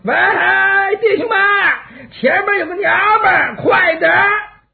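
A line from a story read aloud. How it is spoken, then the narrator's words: Hoarse, raucous shout. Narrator (Chinese): 有人扯着破锣嗓子喊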